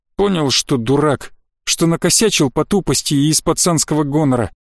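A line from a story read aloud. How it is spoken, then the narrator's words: Firm declaration. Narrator (Russian): заявил друг кота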